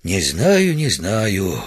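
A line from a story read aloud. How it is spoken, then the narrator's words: Sad sigh. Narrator (Russian): вздохнул Удалов, печально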